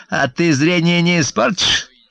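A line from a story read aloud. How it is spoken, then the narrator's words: Snide. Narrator (Russian): ехидно проговорила она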